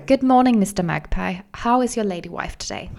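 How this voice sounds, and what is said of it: Put-on accent. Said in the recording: “Do magpie. It an accent.”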